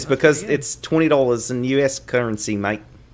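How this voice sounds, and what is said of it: Put-on Australian accent. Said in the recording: “How long have you been waiting to show off that accent? ... I wish you'd stop with this accent. It's very distracting.”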